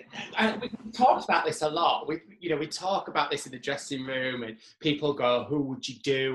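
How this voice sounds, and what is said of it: Yorkshire accent. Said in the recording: “I have a Yorkshire accent... my Yorkshire twang”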